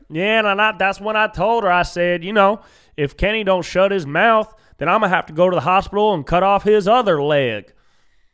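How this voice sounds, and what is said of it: Thick drawl accent. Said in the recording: “she's got this thick drawl accent.”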